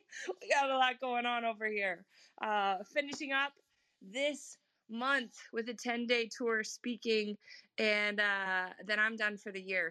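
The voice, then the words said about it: Rough, hoarse voice. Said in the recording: “My voice is a little rough today.”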